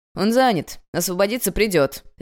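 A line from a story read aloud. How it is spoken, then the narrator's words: Man barking. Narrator (Russian): рявкнул человек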